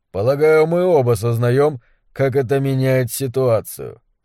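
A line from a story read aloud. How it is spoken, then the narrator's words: Flat, colorless voice. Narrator (Russian): сказал он бесцветным голосом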